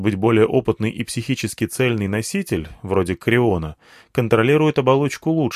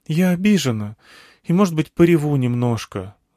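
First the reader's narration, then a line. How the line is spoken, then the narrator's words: Sigh. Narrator (Russian): вздохнула Алька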